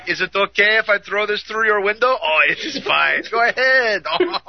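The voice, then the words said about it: Unconvincing put-on French accent. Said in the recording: “You haven't quite got the accent down... it sounds more like Pepe Le Pew chasing Penelope”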